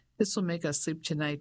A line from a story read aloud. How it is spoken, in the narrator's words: she said, laughing